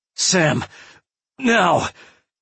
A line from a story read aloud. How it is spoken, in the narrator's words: she screamed